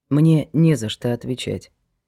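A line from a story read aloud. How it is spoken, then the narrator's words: Quiet objection. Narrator (Russian): тихо возразил Глеб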